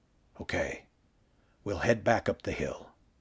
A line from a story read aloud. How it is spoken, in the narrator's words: the rider whispered